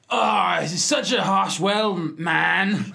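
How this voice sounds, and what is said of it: Put-on accent, sounds Scottish pirate. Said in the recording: “Say it in the Seattle 1990s accent... Just get into my Kurt Cobain... Why is he Scottish?... Why is he a pirate?... An Irish pirate.”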